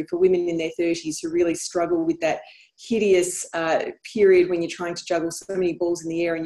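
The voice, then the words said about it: Speaks with a non-American accent. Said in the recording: “I love your accent. I'm sure you hear that all the time from folks in the U.S.”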